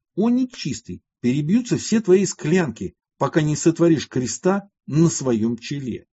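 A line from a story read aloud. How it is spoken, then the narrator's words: Receding shout. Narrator (Russian): Юродивый же, удаляясь, кричал ему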